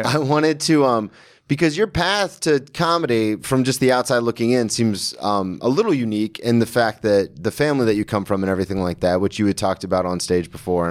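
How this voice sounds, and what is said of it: Slight Southern twang. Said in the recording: “twang ... You got a little bit of it ... I'm from the South”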